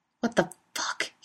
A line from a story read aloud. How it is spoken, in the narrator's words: he hisses, outraged